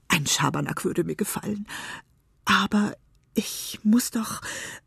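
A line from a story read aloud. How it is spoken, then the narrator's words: Longing whisper. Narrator (German): flüsterte er sehnsüchtig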